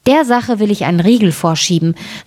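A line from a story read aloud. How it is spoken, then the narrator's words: Plain. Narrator (German): sagte das Schneiderlein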